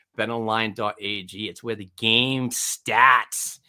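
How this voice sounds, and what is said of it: Put-on New England accent. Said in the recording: “I use that New England accent, stats.”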